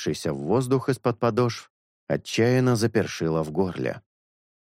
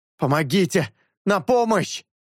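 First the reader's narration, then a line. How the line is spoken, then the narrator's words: Breathless shout. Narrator (Russian): Едва отдышавшись, закричал он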